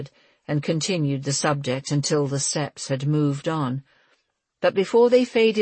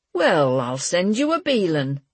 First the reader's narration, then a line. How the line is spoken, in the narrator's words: he said, and managed a low laugh